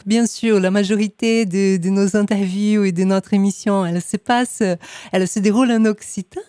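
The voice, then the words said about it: Brazilian accent speaking French. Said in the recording (French): “avec mon accent brésilien”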